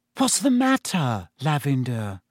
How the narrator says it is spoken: said Hermione anxiously

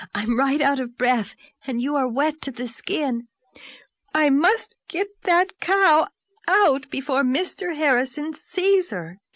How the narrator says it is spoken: gasped Anne

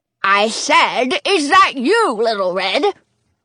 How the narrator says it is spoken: The figure in the bed shouts

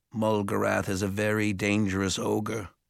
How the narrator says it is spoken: Arthur said quietly

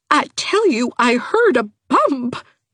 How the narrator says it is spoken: quavered Aunt Mouser

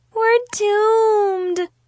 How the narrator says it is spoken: Chloe moaned

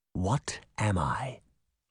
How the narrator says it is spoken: He whispered

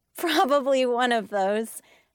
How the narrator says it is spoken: said and giggled

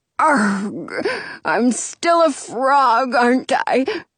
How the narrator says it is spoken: Frederick croaks

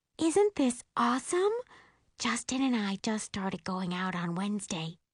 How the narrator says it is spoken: she whispers

